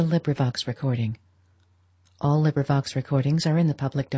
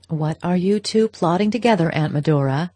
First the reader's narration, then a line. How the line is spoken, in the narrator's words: Madame Olenska cried